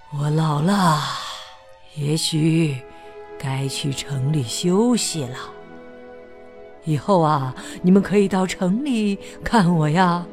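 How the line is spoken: Soft, gentle. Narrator (Chinese): 鲍勃大叔轻声地说

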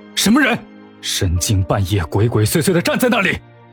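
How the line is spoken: Startled, angry question. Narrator (Chinese): 他心里一惊，便不由得怒气冲冲的问道

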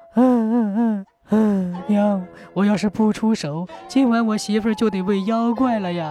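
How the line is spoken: Crying. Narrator (Chinese): 老二也哭

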